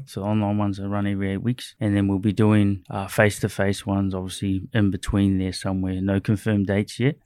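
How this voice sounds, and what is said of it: Slight New Zealand accent. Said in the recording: “you've obviously got a little bit of an accent I picked up on in a few words you've said ... New Zealand”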